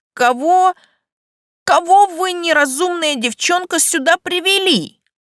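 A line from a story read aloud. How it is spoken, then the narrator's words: Horrified man's exclamation. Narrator (Russian): С ужасом воскликнул мужчина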